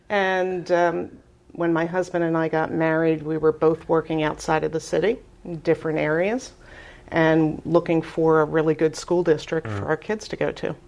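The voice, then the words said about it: Philadelphia accent. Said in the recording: “I grew up in Philadelphia, as you can tell by my accent.”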